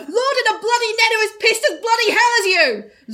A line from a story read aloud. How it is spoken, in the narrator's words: Lord screamed from the height of the net